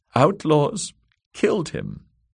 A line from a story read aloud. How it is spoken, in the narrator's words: sobbed Lady Amaray